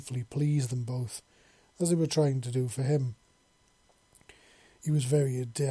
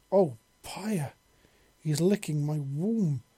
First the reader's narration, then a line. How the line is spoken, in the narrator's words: she exclaimed